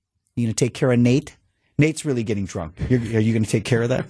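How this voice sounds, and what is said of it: Imitates a bride's voice. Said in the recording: “your bride impression”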